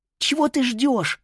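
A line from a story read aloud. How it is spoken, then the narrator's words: Anxious breathy. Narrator (Russian): выдохнула беспокойно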